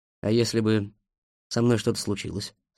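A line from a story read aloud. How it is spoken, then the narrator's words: Plain. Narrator (Russian): спросил я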